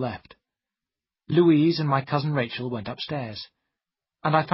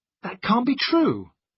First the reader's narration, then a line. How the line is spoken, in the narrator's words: I cried